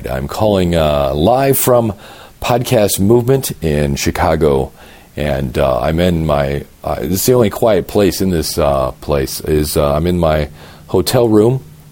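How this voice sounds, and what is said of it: Fried, worn-out hoarse voice. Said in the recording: “my voice is fried ... my voice, I've been talking from about 7 in the morning till about 2 o'clock at night, and it just needs a little bit of a break”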